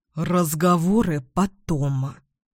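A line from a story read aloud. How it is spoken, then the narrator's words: Hiss. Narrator (Russian): прошипел Эдвин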